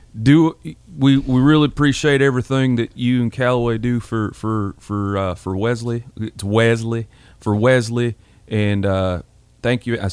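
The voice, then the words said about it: Imitates another person's voice. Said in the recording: “George Bryan third imitation of your dad, but maybe I will”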